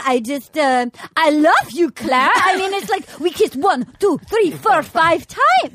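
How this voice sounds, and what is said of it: Impression of Benoit, generic accent. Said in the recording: “his impression ... all my impressions are the same accent. It doesn't matter what country you're from. They're all vaguely insulting”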